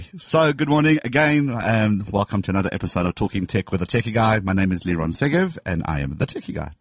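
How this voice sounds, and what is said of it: Rough, worn-out sounding voice. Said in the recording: “my voice is terrible. It was a long weekend. ... I'm obviously sounding better than you”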